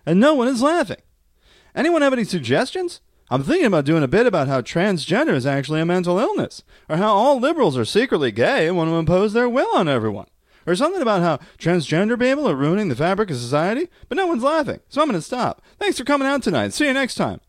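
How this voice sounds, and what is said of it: Imitation of AI-generated Seinfeld voice. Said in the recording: “the AI-generated Seinfeld thing ... I'm trying to do the voice, dude.”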